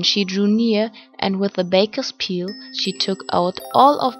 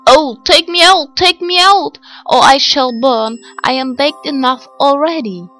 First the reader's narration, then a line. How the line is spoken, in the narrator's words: the bread called out to her